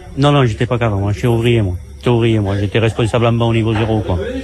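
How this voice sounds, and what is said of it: Southern French accent. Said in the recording (French): “avec votre accent du sud”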